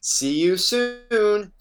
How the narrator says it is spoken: called out

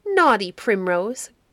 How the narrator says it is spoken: cried Cowslip, a child of 6 years old

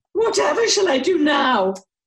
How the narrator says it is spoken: Lady FitzTulip wailed

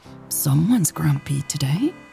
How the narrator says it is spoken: Mary murmured

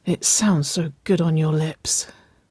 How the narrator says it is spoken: Waverley breathed

